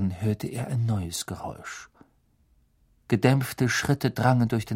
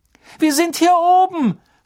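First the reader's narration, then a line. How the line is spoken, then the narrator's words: Sudden call. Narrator (German): rief Hermine plötzlich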